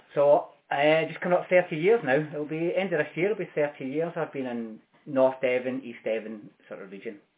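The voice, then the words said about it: Glasgow Scottish accent. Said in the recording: “you're not a Devon boy, are you? ... You picked up on it quickly ... I strive to keep my Glasgow accent as long as I possibly can”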